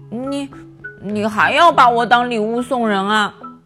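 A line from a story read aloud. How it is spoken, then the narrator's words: Stammering. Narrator (Chinese): 狼结结巴巴的说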